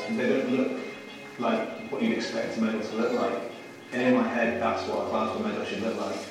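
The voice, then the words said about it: Slightly posh Scouse accent. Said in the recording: “that's your Scouse. I think he's probably from the Wirral, actually. It's a slightly posher accent than a Scouse accent,”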